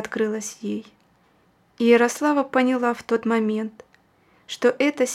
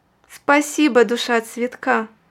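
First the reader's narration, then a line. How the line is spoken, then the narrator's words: Joyful. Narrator (Russian): сказала она радостно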